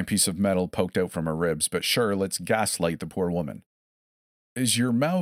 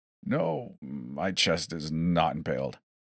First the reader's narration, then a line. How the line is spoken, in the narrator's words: she groaned